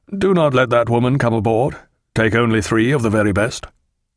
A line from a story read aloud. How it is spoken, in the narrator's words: in a genuinely indifferent tone he said to Tom Pullings